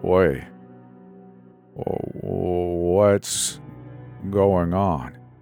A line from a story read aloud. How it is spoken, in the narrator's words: His voice was a slow slur